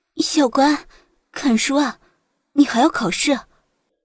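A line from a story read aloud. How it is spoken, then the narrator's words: Tipsy, slightly panting. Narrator (Chinese): 染着酒后的酡红……微微喘息着说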